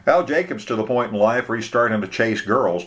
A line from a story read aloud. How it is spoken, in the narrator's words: Dan laughed